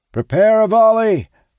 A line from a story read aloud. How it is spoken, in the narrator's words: our captain shouts